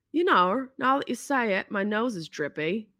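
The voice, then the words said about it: Poor imitation New Zealand accent. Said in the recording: “It's my terrible attempt at a New Zealand accent.”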